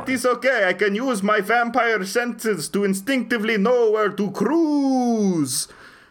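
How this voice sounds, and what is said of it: Put-on Romanian accent. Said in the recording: “Don't make fun of my accent. This is a proud Romanian accent.”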